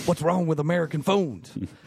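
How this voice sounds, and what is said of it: Imitates another person's voice. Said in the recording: “my George Bush impression”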